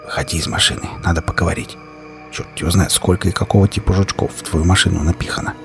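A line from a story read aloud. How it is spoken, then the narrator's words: Whispered. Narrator (Russian): прошептал я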